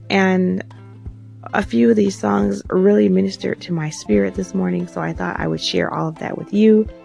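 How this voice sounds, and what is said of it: Raspy voice. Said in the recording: “They had me in tears. That's probably why my voice sounds so raspy.”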